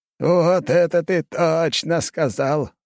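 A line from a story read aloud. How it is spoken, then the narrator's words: Laughing. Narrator (Russian): рассмеялся Лазарев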